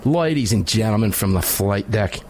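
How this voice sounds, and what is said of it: Put-on Australian accent. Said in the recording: “He comes in with a hoity-toity British accent. ... that's Australian, but I did kind of do an Australian accent there briefly”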